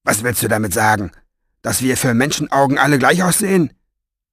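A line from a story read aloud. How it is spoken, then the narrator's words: Harsh question. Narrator (German): fragte barsch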